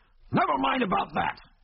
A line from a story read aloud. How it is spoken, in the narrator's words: shouted McBain, as if he sensed that the oncoming aeroplane was a danger to the success of his plans